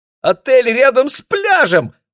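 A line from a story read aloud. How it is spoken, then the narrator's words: Squealed. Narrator (Russian): взвизгнула Кира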